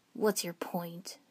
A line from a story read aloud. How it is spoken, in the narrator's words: Sasuke growled